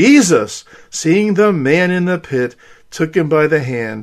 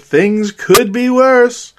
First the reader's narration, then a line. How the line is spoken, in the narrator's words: An optimist happily said